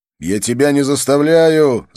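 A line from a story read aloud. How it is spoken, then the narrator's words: Shouting. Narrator (Russian): закричал я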